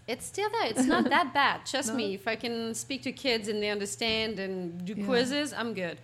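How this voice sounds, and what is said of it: Thick French accent. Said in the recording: “She had a very thick French accent. ... I could barely understand anything she said. ... even after 20 years, it's still there.”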